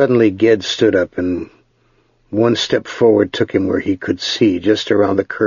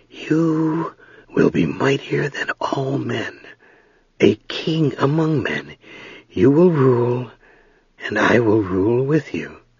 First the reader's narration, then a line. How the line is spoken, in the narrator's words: Softly, whispered